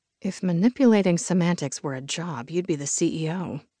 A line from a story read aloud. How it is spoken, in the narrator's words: I muttered